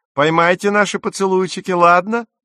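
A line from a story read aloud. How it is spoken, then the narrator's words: Shouted. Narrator (Russian): прокричали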